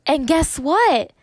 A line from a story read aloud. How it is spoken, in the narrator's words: Kirsty explained suddenly in a loud voice